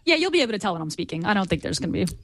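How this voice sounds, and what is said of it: Impression of Gina. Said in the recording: “my Gina impression ... good impression”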